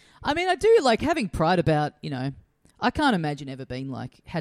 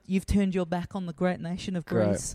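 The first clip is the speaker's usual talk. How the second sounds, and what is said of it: Put-on accent. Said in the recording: “That accent ... just did”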